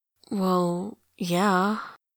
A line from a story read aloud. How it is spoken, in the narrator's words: she says slowly